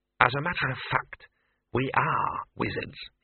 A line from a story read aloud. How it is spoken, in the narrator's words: he hissed